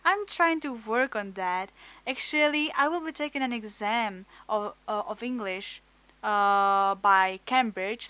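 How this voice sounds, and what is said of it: Czech accent in English. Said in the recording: “I'm from Czech Republic. My English is not really good ... my a bit of weird accent, my weird pronunciation of some words”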